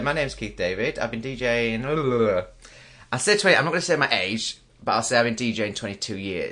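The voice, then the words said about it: Yorkshire English accent. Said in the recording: “You probably guessed by the accent. ... from Yorkshire.”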